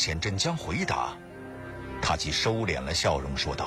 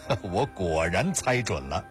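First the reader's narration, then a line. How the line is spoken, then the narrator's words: Laughing. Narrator (Chinese): 林楠笑道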